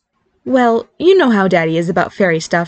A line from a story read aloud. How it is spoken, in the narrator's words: she replied